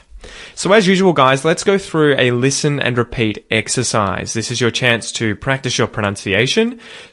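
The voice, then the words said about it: Australian English accent. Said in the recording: “if you want an Aussie accent, obviously try and mimic me, try and copy me as best you can”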